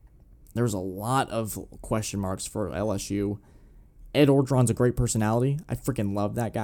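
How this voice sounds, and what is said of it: Usual voice. Nothing is said of it.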